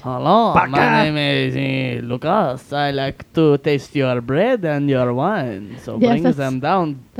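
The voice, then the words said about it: Exaggerated French accent in English. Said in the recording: “in English in a really ridiculous French accent ... That's pretty good.”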